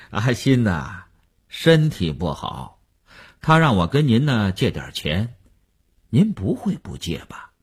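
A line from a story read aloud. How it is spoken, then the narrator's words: Chuckling, blunt, over phone. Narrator (Chinese): 那个人在电话里嘿嘿地笑了，直截了当地说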